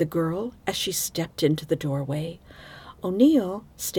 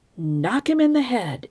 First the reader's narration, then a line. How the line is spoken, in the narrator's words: exclaimed Lieutenant Hand